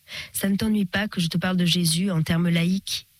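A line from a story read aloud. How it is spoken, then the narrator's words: Sudden, deeply respectful, uncertain question. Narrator (French): demanda-t-il soudain d'un ton de respect profond, incertain des libertés qu'il pouvait prendre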